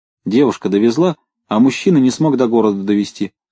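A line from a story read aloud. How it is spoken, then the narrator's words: Plain. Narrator (Russian): сказала Кротова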